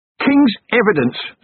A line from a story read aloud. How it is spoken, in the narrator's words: Stratford blurted out